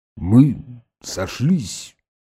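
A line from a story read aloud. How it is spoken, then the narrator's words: Low muffled voice. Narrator (Russian): глухо промолвил Базаров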